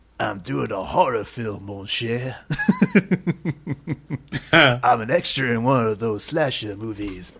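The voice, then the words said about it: Imitates a cartoon character's voice. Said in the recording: “do his voice ... It was not bad. It was pretty good.”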